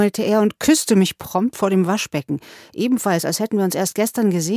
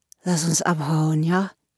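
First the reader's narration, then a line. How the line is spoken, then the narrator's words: Slurred. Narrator (German): lallte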